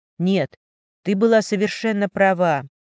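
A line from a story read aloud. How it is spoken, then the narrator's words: Sighed. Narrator (Russian): вздохнул Улисов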